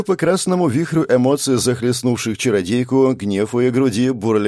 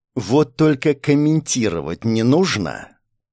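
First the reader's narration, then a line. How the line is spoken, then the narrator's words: Angry growl. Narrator (Russian): Зло прорычала Лиара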